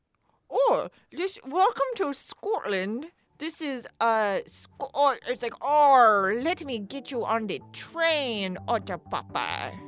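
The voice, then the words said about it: Put-on Scottish accent. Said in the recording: “do your best Scottish accent ... Oh, so there's a hint of sort of island.”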